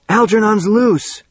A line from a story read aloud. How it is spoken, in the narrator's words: Bert shouted